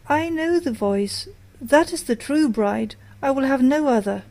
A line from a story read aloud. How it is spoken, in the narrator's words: he cried